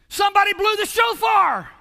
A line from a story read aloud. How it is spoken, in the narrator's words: somebody else hollered out